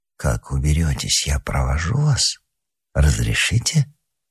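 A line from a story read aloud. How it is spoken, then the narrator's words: Quiet conspiratorial. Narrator (Russian): Лыбарзин тихим заговорщицким голосом произнес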